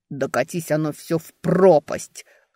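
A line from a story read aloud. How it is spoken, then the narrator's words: Growling. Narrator (Russian): рыкнул Эберт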